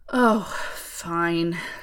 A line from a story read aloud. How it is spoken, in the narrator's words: she sighed